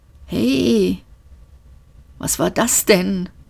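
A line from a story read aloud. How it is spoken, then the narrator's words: Hoarse mutter. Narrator (German): murmelte er heiser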